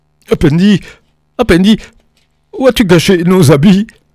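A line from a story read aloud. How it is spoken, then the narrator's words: Shivering group exclamation. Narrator (French): s'écrièrent-ils, frissonnant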